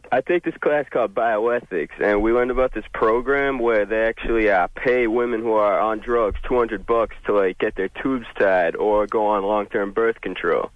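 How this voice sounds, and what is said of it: Mixed Boston and Antipodean accent. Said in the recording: “one of the craziest dialect slash accents ... He's calling from Alabama ... Guy who grew up in Boston by way of New Zealand ... There's a little Aussie meets bossy”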